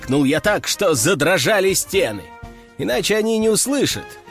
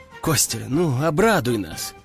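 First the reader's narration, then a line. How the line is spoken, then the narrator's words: Calm. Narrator (Russian): спокойно проговорил художник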